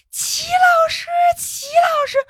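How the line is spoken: Tearful calling. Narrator (Chinese): 喊齐老师的时候，我那个眼泪呀就在眼眶里

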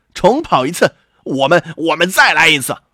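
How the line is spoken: Hare, furious cry. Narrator (Chinese): 这下野兔可气坏了，叫道

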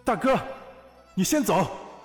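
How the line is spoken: Sudden roar in rain. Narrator (Chinese): 漫天雨幕中，魏恒忽然大吼一声

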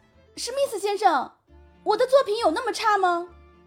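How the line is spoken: Loud, exasperated. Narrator (Chinese): 于山忍不住了，大声说道

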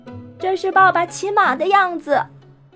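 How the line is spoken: Playful child shouting loudly. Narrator (Chinese): 这顽皮孩子……一面大声喊道

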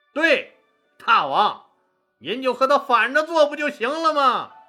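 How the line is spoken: Loud. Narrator (Chinese): 韩信大声说

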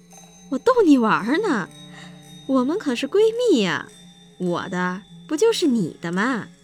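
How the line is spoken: Happy laughing. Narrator (Chinese): 林轩反倒笑了，开心的说

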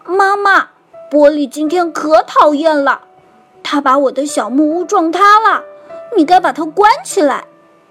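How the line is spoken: Shouting. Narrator (Chinese): 玛尼就大叫着

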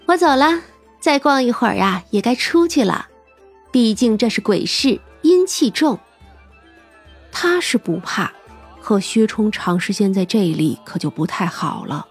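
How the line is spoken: Laughing. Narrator (Chinese): 三娘就笑道

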